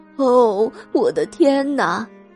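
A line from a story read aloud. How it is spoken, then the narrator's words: Woman crying, complaining. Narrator (Chinese): 女人跑到市长那里去哭诉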